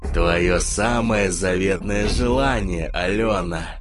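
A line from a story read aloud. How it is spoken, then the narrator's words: Rough distorted voice. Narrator (Russian): спросил ангел грубым искаженным голосом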